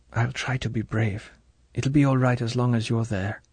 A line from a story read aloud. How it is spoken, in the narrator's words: She whispered almost to herself